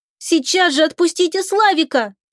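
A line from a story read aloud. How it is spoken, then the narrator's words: Shouted. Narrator (Russian): Придя в себя от неожиданности, закричала Оксана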